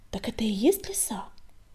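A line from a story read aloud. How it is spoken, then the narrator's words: Whisper. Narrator (Russian): прошептал огонек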